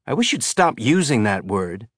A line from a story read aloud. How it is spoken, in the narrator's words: Carol Chiwiwi said